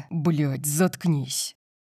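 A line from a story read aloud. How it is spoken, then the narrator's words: Snapping. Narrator (Russian): Огрызнулся Дариус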